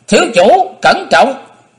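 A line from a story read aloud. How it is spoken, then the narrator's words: Cried out warning. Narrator (Vietnamese): Một thủ hạ của Đông Phương Gia Bảo kêu lên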